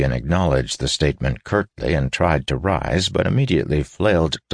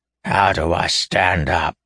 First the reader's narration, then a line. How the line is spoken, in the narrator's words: he snarled